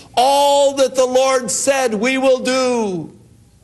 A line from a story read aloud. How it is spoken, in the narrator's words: they cried unto Moses